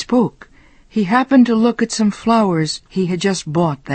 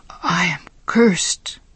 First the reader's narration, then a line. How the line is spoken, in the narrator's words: Giovanni whispered to himself